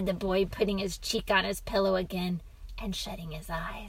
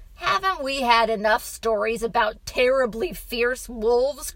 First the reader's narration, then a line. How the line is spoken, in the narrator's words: cried the man